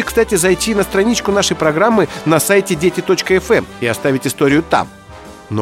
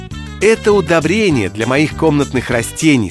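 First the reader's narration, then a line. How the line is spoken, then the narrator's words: Plain. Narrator (Russian): сказала мама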